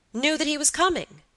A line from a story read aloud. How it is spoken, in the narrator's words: cried Robert, brightening up